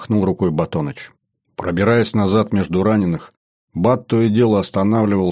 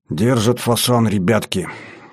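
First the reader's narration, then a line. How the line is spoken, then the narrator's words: Lifeless flat voice. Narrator (Russian): каким-то неживым голосом сказал Батоныч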